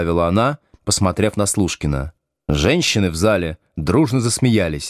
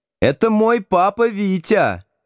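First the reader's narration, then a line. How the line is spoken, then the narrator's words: Shouted. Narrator (Russian): крикнула Тата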